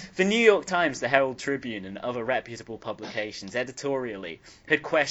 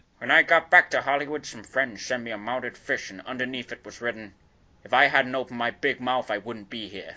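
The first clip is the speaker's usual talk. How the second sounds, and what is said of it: Imitated voice drifting toward Tony Soprano. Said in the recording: “That's not bad. ... It's going into different territories now, like Tony Soprano a little bit ... I'm going to move on in my own voice.”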